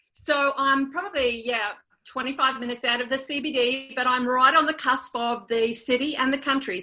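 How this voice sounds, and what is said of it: Australian accent. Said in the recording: “Love that Australian accent.”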